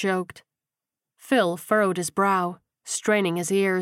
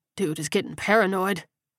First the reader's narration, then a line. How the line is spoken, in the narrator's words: Daryl scoffed